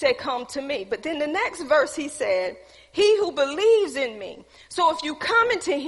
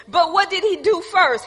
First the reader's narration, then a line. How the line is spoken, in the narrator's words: He cried out with a loud voice